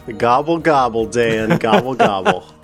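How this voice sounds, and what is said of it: Turkey gobbling impression. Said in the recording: “a pretty good turkey impression”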